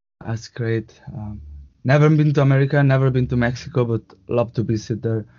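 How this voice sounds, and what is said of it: Spanish accent. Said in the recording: “I could tell it was definitely a Latin accent ... It's a Spanish accent, so it sounds really similar”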